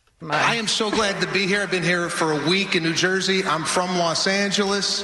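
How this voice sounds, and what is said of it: Unusual, fake-sounding accent. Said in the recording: “that is a fake accent. ... that's always been his accent.”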